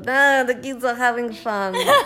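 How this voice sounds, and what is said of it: Imitates Israeli parents' way of speaking. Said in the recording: “my only impression of like Israeli people”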